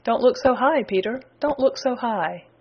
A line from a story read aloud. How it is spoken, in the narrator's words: said the voice with a chuckle